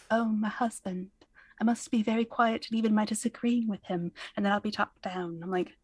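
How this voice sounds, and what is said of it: Put-on British accent. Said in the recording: “maybe the best accent you have ever done on the podcast ... I should have more wine when I do a British accent.”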